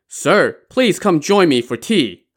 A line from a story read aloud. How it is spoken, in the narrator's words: He Tao called out